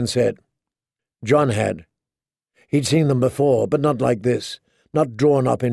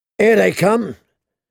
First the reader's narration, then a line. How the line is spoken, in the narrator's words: said someone in a hoarse voice